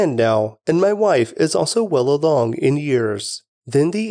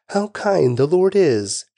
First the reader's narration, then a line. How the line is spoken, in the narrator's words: she exclaimed